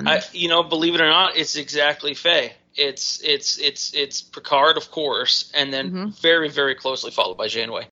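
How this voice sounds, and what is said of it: Scottish accent. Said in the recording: “with that accent ... Are you related to Scotty? ... a Scottish person”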